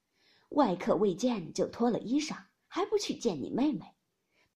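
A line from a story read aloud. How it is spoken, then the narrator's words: Sly sinister laugh. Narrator (Chinese): 贾母阴笑道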